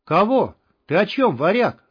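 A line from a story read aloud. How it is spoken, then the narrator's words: Yell. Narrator (Russian): завопил артист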